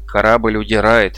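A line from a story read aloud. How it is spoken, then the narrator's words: Gloomy remark. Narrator (Russian): мрачно заметил Арнак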